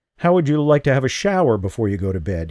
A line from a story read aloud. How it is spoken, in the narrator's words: asked